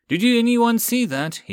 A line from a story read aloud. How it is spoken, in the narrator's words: He called out